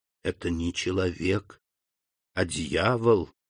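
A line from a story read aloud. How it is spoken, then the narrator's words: Whisper. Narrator (Russian): прошептал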